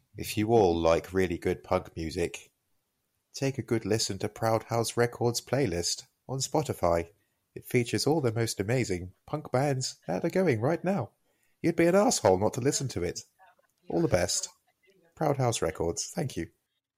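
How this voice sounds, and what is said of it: Exaggerated stereotypical English accent. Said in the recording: “an English accent telling you to do something ... that isn't even the way we sound ... That's like the typical thing you see on an American program”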